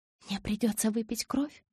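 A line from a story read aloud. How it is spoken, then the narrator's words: Whispered. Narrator (Russian): прошептала Белла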